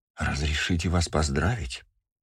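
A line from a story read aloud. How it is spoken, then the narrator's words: Quiet. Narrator (Russian): тихо сказала Медея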